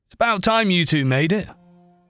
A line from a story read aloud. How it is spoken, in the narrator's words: Angelo called out